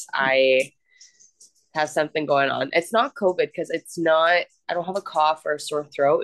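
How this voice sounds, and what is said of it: Nasal, congested voice. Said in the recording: “I don't know if you hear it in my voice ... It's just nasal congestion ... you sound nasally”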